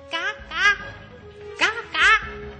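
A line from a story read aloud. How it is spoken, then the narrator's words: Shouting loudly. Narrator (Chinese): 他冲着狐狸大声的喊道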